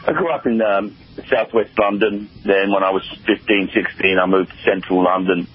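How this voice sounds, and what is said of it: English accent. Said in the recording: “I'm pretty familiar with English accents ... you have a limey accent”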